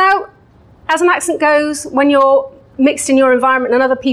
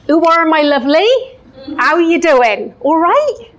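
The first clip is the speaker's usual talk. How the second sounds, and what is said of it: Broad Bristolian West Country accent. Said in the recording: “The Bristolian accent is somewhat challenging because it's a little bit of a mix between a pirate and a farmer ... to give you a little taster of this”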